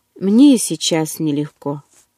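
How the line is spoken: Sighing. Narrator (Russian): вздохнул он

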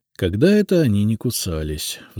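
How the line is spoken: Sigh. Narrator (Russian): вздохнул

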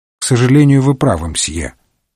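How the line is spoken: Sighing. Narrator (Russian): вздохнул Пуаро

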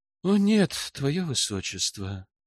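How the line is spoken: Somewhat sad. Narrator (Russian): как-то грустно проговорил эльф

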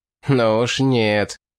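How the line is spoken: Sarcastic. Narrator (Russian): язвительно сказал барон

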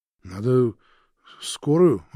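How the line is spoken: Bewildered. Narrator (Russian): растерянно сказал Роман

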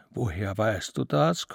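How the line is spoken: Gasping. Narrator (German): keuchte Lichtendorf

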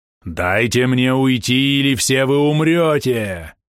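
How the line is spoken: Menacing growl. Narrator (Russian): грозно прорычал пойманный демон

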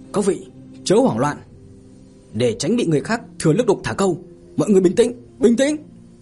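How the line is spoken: Hurried loud shout. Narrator (Vietnamese): Tất Lăng Phong vội vàng hét lớn

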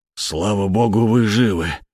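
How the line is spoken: Breathless boar. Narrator (Russian): выдохнул вепрь

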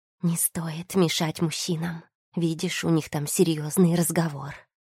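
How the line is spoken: Barely audible. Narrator (Russian): еле слышно проговорила Тия

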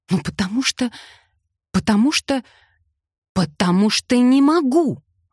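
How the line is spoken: Exclamation. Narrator (Russian): воскликнула

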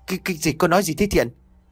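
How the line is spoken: Startled stammering. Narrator (Vietnamese): ông Phúc giật mình, ông lắp bắp

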